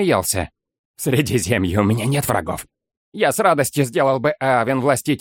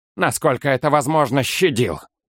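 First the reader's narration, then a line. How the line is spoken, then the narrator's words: Dry reply. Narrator (Russian): сухо ответил Олмер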